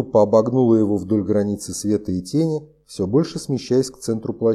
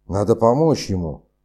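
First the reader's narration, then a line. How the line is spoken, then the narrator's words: Growl. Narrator (Russian): прорычал Франц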